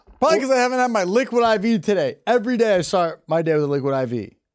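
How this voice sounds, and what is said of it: Dry, parched-sounding voice. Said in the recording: “My voice is so dry.”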